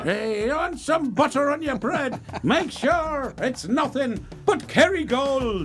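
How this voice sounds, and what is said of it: Put-on Irish accent. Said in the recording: “You could have been talking with an Irish accent.”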